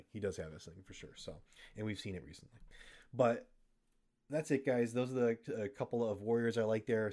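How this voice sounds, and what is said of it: Hoarse, fading voice. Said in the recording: “I'm starting to lose my voice here. It's been a long day.”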